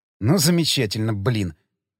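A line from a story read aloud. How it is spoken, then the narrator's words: Mutter. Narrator (Russian): пробормотал я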